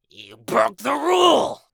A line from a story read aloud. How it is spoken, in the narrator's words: snarled